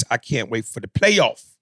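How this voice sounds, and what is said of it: Imitates another person's voice. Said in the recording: “in my Magic Johnson voice,”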